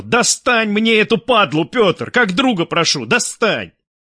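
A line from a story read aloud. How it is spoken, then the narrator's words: Sudden shout, general. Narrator (Russian): неожиданно предложил генерал и, не сдержавшись, закричал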